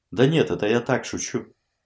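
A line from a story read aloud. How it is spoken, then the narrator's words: Calming down, serious. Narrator (Russian): Ираклий глубоко вздохнул, успокаиваясь, уже вполне серьезно продолжил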